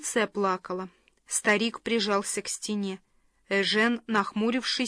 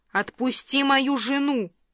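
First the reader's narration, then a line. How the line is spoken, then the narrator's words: Barked. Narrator (Russian): рявкнул он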